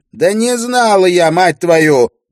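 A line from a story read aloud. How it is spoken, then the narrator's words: Shout. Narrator (Russian): прокричала Ирия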